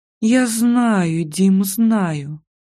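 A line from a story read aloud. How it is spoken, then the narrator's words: Sleepy mumble. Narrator (Russian): сонно пробормотала я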